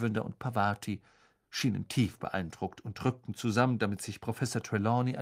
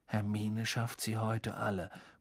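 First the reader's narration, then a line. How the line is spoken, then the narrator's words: Awed murmur. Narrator (German): murmelte Ron mit ehrfurchtsvoller Miene Harry zu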